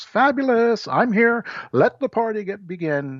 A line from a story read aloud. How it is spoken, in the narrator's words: a grandiose, over-the-top kind where a person walks into a room and just shouts